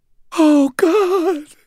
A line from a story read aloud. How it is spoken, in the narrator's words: whimpered